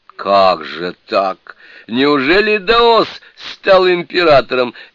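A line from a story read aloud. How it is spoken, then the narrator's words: Asking through laughter. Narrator (Russian): не удержавшись от хохота, спросил Суню-кун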